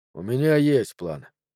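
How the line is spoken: Quiet. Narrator (Russian): тихо сказал Джо

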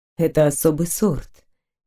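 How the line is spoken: Soft, gentle. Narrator (Russian): мягко сказал мужчина

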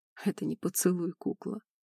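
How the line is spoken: Hoarse. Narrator (Russian): хрипло проговорил

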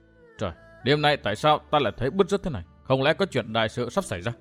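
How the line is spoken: Anxious mutter. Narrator (Vietnamese): Trong lòng hết sức hồi hộp, nói lẩm bẩm

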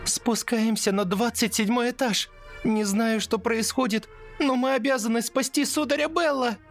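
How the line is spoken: Shouting. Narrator (Russian): Закричала Лили

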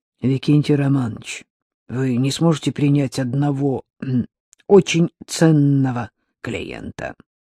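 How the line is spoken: Nervous hoarse voice. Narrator (Russian): Секретарь нервно сглотнул, произнес охрипшим голосом

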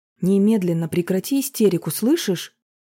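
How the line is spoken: Sharp shout. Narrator (Russian): прикрикнула на нее Марина

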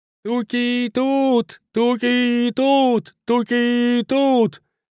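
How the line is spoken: Inarticulate yell. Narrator (Russian): Нечленораздельно завопил он

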